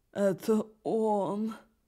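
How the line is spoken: Exclaiming. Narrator (Russian): воскликнула Каролина

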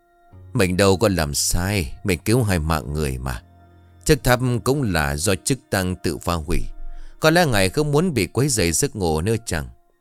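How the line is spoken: Smiling mutter. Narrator (Vietnamese): ông mỉm cười rồi lẩm bẩm

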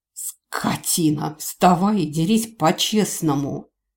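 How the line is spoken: Strained wheeze. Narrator (Russian): нашел в себе силы прохрипеть

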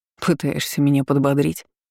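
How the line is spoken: Snorting. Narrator (Russian): Хмыкнул я

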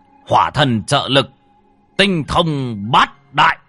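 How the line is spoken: Shouted incantation. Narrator (Vietnamese): Hai lão quát

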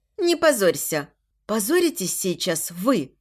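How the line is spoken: Icy cold tone. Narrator (Russian): отвечаю ей ледяным тоном

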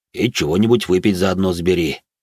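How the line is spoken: Smirking grunt. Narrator (Russian): хмыкнул Грон

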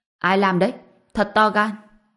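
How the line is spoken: Angry middle-aged man. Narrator (Vietnamese): một người đàn ông trung niên tức giận nói

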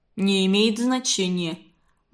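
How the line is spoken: Gloomy mutter. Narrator (Russian): мрачно пробурчал Волохов

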